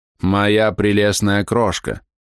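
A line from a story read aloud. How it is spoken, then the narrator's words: Displeased drawl, young man. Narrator (Russian): недовольно протянул молодой актер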